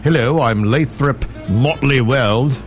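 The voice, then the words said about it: Put-on upper-class accent. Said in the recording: “I don't know why I'm changing his accent”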